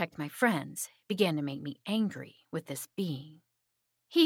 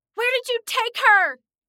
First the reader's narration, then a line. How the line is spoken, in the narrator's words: I heard Nora scream